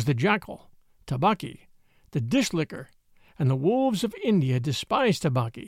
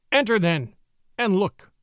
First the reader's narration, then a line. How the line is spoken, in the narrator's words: said Father Wolf stiffly